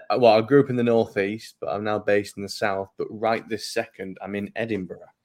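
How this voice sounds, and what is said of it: Slight northern English accent. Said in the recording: “I'm hearing some slight northern twang coming through here.”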